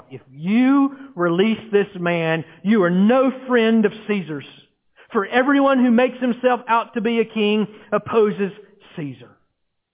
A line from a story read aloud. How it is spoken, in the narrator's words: they now shout